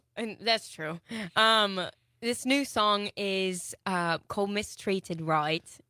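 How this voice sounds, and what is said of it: Put-on Australian accent. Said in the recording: “this is totally an Australian accent... You can shelf the British accent.”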